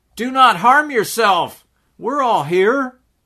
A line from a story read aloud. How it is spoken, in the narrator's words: cried with a loud voice, saying